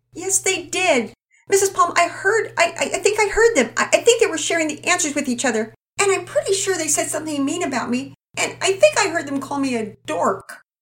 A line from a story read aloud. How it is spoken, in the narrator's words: Juliet cried out